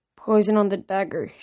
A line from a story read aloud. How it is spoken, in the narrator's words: she mumbled